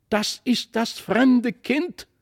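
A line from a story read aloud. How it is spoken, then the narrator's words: Called out. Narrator (German): rief Christlieb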